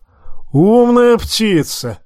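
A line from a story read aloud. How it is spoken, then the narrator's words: Loud laughter. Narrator (Russian): расхохотался Тормунд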